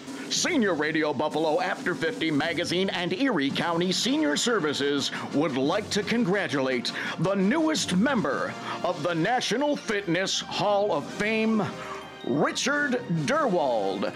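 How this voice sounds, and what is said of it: Big booming announcer voice. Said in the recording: “in my big announcer voice”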